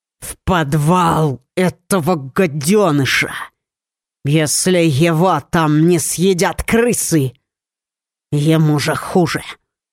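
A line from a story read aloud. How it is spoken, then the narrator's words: Irritated growl. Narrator (Russian): прорычал раздраженный хозяин дома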